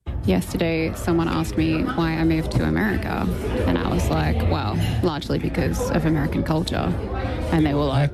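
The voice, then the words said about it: Australian-sounding accent. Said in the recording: “I'm hearing Australian ... maybe I'm just getting muddled in my accents”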